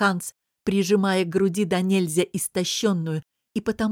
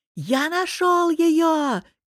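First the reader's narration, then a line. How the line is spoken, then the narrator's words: Shouted. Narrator (Russian): крикнул Ханс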